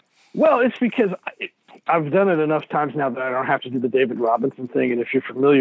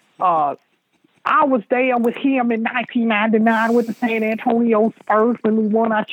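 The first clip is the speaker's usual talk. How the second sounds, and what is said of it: Imitates another person's voice. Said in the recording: “I do an Avery Johnson impression.”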